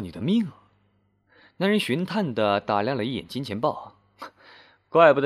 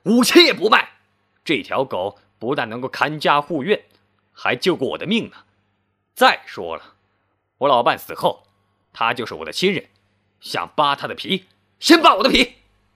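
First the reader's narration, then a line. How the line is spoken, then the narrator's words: Loud, wounded pride. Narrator (Chinese): 冯成觉得自尊心受挫了，大声说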